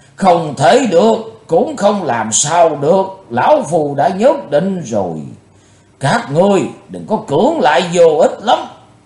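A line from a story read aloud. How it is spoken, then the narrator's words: Thunderous roaring voice. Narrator (Vietnamese): Lão tà nói như trời gầm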